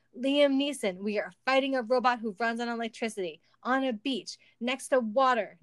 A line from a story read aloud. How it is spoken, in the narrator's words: Nick shouted